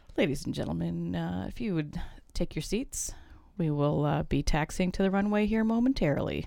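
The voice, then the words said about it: Airline pilot announcement voice. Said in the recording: “did a good pilot imitation”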